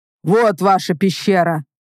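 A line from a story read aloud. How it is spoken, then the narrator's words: Deep bass voice. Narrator (Russian): пробасил Ларх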